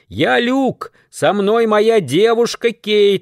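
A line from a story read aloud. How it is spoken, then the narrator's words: Shout to stranger. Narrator (Russian): закричал Люк, обращаясь к незнакомцу в лесу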